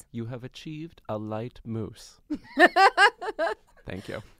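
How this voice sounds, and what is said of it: Mary Berry impression. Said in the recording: “my impression of her? ... your British accent? ... Nope. I don't need the accent.”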